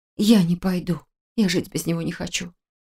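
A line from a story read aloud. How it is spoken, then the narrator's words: Whisper. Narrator (Russian): прошептала я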